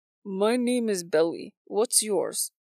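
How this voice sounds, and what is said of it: Slight Eastern European accent. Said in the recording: “He had a slight Eastern European accent.”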